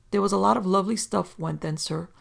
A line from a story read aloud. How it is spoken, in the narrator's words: said Warby with a sigh